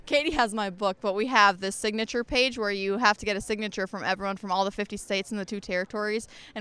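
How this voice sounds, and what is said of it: Minnesotan American accent. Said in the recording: “you have a funny accent ... Oh, Minnesota ... You guys have such a weird accent”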